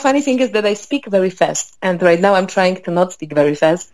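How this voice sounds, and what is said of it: Mild foreign accent, clear English. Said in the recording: “not originally from Chicago ... You can hear it, right? In the accent ... I know that I have an accent ... it's very, very clear English, though. There, I mean, there is an accent, but no more so than somebody from a different region of America”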